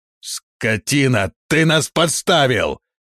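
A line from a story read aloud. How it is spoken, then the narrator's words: Yelling. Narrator (Russian): завопил он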